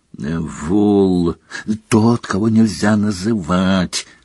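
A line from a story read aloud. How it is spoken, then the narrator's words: Growling. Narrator (Russian): прорычал Фадж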